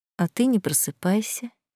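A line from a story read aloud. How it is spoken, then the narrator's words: Muffled murmur. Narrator (Russian): пробормотала ему в шею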